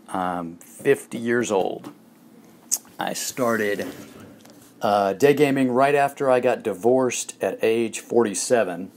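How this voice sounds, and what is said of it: American accent. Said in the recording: “my sexy American accent”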